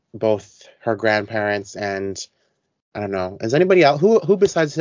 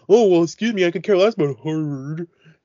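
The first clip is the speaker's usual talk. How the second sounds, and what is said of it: Goofy yeehaw-style character voice. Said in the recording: “this yeehaw accent ... It's my Dean voice.”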